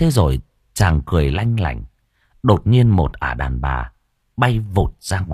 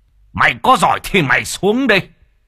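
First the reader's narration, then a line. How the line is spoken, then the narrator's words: Hissing. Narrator (Vietnamese): Mò Bá Cha rít lên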